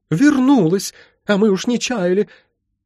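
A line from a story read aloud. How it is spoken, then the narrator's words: Sudden sob. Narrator (Russian): она вдруг всхлипнула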